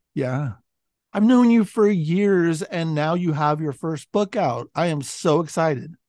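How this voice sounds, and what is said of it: Raspy voice, sounds like a cold. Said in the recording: “getting over a cold, I guess, as you can as you can tell ... you're sounding a little raspy ... I am too”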